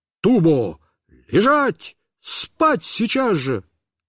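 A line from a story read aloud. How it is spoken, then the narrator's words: Shouted. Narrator (Russian): все-таки закричал на нее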